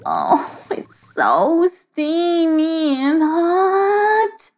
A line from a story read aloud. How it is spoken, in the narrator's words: moaned Monia